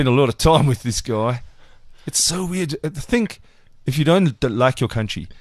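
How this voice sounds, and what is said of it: Usual voice. Nothing is said of it.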